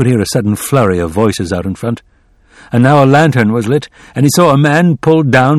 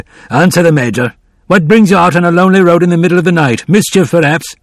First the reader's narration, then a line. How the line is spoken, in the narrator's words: The sergeant roared